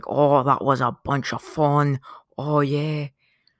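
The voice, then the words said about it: Badly done put-on accent. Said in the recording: “That was a terrible accent.”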